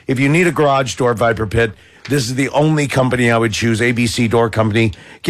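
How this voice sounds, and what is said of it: Worn-out, strained voice. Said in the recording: “my voice is hurting ... worn-out voice”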